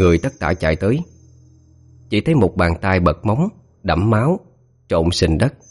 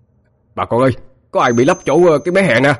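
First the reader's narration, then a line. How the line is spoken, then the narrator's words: Shout. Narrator (Vietnamese): một người la lên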